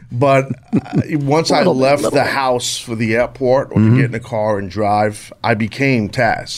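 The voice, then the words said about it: New York accent. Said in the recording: “born and raised in New York, if you couldn't tell from my accent. ... I can tell.”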